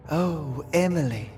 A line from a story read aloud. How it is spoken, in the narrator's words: Constance sighed again